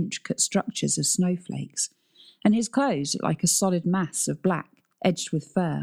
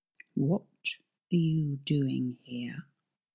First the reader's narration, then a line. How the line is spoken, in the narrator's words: Adrian asked in a restrained, rumbling whisper